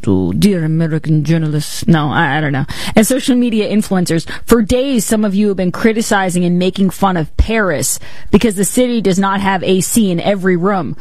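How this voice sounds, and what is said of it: Put-on French accent. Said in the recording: “I'd put on a French accent.”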